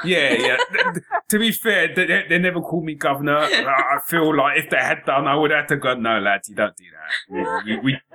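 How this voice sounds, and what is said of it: Cockney North London accent. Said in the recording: “a black guy who wasn't American and actually had a kind of Cockney North London accent”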